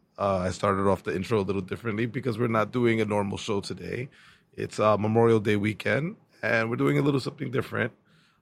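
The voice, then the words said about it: Hoarse, fading voice. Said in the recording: “losing my voice. I don't have my trademark patent voice for this episode. It's dying slowly.”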